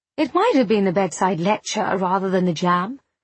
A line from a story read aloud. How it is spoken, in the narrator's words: said Agatha, in an equable tone